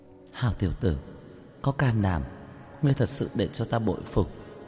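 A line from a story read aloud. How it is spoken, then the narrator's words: Low smiling mutter. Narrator (Vietnamese): khóe miệng hiện lên một nụ cười, thấp giọng lẩm bẩm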